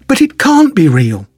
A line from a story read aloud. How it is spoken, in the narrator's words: Adric exclaimed